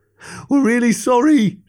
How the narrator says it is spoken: shouted Greg

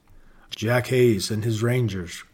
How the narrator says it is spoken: gloomily replied the Comanche chief

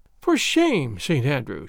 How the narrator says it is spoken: she said, with a playful sigh

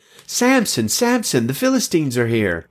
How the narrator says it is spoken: Delilah shouted

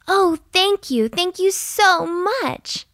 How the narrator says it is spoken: she said happily

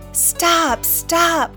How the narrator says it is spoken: cried the townspeople

